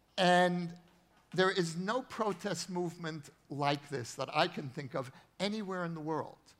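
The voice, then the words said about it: American accent. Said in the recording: “I grew up in the United States, as you can hear from my accent.”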